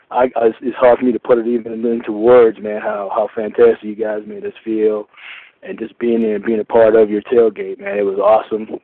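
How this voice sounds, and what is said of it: Hoarse, nearly lost voice. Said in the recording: “as you can probably tell, I lost my voice. That was all the screaming and yelling”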